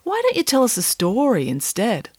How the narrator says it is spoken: said Michael sadly

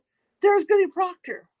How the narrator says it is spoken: one of the girls yelled

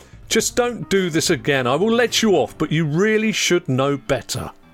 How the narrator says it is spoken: he then loudly sighed and exclaimed loudly

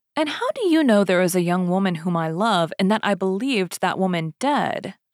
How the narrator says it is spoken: asked D'Artagnan

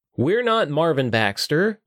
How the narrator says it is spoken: Will yelled down to the sentient helmet below

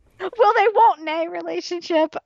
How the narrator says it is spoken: I laugh very hard

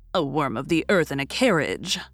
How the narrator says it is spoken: growled the conventionary

